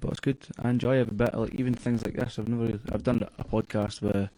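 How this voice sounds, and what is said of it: Scottish accent. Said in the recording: “It's a Scottish thing, isn't it? When you hear your accent”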